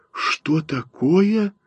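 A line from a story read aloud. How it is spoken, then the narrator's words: Frightened whisper. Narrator (Russian): зашептала она испуганно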